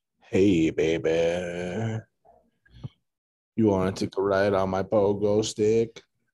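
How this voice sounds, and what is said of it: Put-on sexy voice. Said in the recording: “Do your sexy voice”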